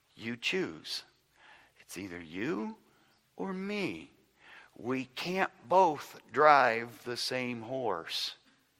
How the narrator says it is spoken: said gently

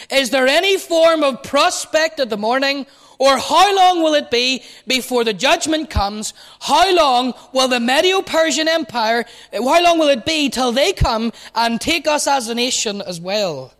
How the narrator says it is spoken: It's as if he shrieks

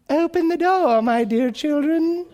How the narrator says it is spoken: the rascal called in his new sweet voice

